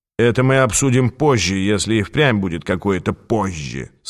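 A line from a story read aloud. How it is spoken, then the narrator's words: Grim. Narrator (Russian): сказал Хиггинс, мрачно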